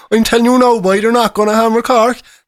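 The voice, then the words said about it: Convincing put-on Cork Irish accent. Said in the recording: “that was a brilliant impression of someone from the broad area of Cork.”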